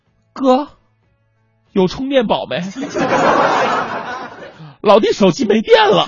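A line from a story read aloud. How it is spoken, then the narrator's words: Smiling reply. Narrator (Chinese): 这位兄弟面带微笑，回了我一句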